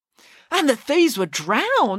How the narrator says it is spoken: exclaimed Michael

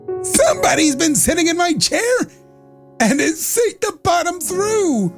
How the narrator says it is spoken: said the little wee bear in his little wee voice

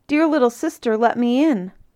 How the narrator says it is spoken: cried

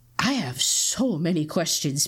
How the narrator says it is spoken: Peter muttered

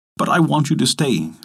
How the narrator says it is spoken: said Adam

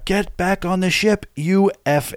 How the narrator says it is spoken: the Coast Guard guy just started screaming

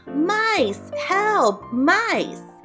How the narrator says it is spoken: started shouting

